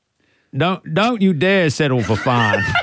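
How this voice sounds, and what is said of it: Imitates another person's accent. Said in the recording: “Can you say it with his accent? It sounds better.”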